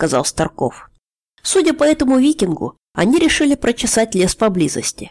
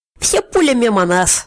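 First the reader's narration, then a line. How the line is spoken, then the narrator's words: Laughing. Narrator (Russian): засмеялся Старков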